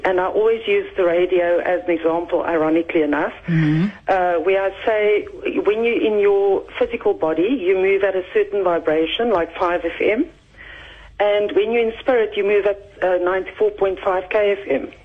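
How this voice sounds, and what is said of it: Nervous, shaking voice. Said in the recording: “I'm so nervous. So if my voice is shaking.”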